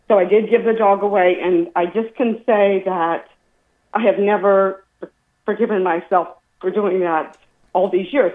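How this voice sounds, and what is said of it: Emotional, tearful voice. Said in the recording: “I'm sorry for getting emotional.”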